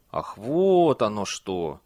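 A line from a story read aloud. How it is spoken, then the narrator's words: Drawn-out drawl. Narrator (Russian): протянул он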